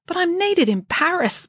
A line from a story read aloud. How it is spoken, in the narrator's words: pleaded Friday